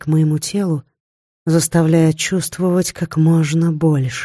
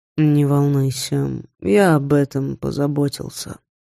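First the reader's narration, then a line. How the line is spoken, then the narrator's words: Sleepy speech. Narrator (Russian): сонно произнес Женя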